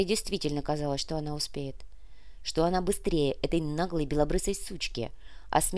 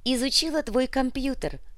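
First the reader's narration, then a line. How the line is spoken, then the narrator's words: Mocking loud laughter. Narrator (Russian): расхохоталась ей в лицо Лариса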